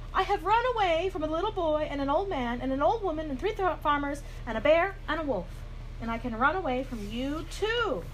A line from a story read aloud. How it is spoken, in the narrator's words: he called out